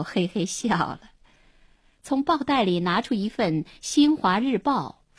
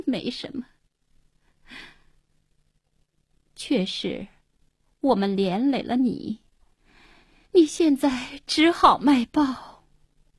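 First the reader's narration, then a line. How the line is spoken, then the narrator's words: Bitter wry smile. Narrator (Chinese): 黄英定定神，苦笑了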